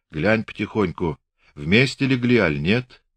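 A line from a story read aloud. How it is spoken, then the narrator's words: Whisper. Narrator (Russian): Пантелей Прокофьевич шептал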